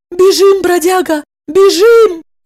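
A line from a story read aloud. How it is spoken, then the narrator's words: Shout. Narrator (Russian): закричала она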